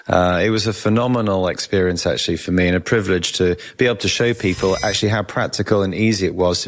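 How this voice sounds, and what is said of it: English accent. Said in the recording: “It's always good to have the English accent because you're obviously smarter because you have a British accent.”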